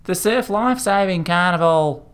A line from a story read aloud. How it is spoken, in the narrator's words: the boy yelled over his shoulder as he ran on down the sand